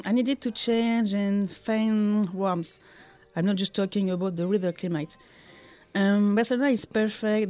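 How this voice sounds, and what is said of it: Non-native English accent. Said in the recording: “from your accent, we know that you're not a native of Catalonia”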